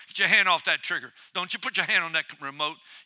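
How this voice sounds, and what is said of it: Loud shouting preacher voice. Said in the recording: “I'd be shouting at you. I'm shouting now ... you can turn the volume down now ... You need to hear me in full volume today.”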